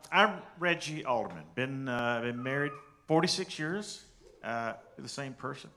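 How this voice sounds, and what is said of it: Southern American accent. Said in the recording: “He got a southern accent”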